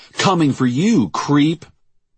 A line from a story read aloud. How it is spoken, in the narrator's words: the man shouting